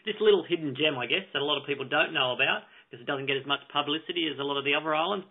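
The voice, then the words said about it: Australian accent. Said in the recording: “you do detect that ... has an accent ... is actually from across the Tasman in Australia”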